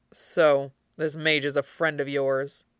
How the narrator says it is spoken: Fenris said in an undertone

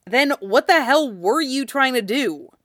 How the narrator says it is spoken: He snapped in annoyance

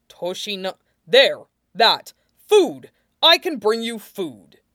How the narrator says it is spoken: Toshinori exclaimed, like he had just found the right combination for a safe

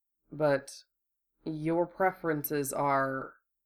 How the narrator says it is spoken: Apparently choosing his words with care, Hiro said slowly

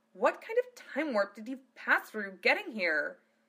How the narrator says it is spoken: Phileas snapped

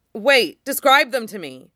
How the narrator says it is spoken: Peerless Cucumber shouts

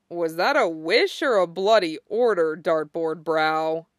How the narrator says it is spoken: a bemused snort behind him, and a drawled

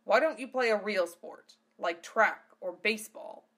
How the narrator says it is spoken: Rezzo growled

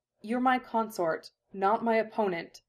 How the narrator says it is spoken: she said more sharply

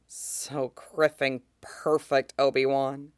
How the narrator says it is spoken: Cody can't help but murmur

